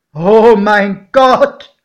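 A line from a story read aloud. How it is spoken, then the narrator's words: Exclaimed. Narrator (German): rief mein Pate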